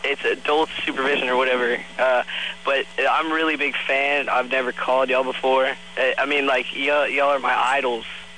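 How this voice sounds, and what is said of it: Stoner-sounding teenage voice. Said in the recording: “admit you smoke pot ... I have this accent ... that Greg Brady voice”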